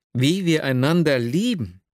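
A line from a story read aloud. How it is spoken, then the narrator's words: Exclaiming. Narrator (German): rief ich aus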